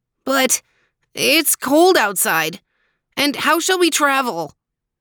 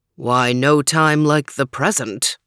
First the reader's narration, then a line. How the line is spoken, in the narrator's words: rumbled Overton